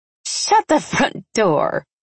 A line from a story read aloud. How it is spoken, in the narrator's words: I said with a surprised laugh